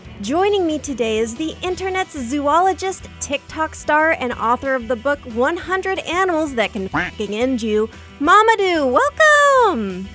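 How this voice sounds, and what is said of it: Polished announcer-style radio voice. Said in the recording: “that was your radio voice. That was amazing.”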